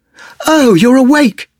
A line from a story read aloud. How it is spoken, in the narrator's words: she cried, surprised to see Adric up and about